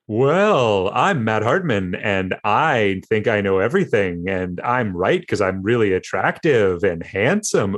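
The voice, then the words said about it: Imitates another person's voice. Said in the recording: “I do, however, do a killer Matt Hartman impersonation ... And that's how you sound.”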